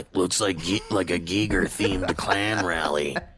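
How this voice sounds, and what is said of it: Gravelly imitation of another person's voice. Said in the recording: “good Jesse impersonation... just a pitch change... the gravel's still there”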